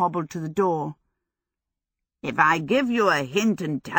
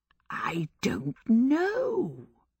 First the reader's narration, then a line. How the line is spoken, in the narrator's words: he whispered